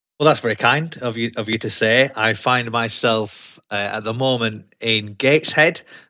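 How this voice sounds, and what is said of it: Broad Yorkshire accent. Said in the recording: “I don't have a Geordie accent. Got a broad Yorkshire accent”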